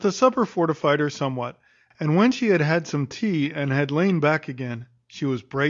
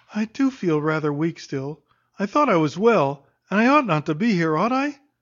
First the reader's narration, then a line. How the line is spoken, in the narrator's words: she breathed plaintively and said